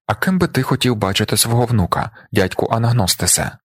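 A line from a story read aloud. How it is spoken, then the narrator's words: Plain. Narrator (Ukrainian): запитав я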